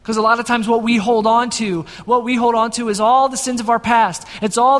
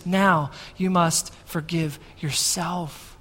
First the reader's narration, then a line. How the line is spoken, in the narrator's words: he also whispers into our ears